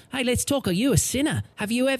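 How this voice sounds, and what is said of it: Imitated New Zealand accent. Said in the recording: “he got the New Zealand accent”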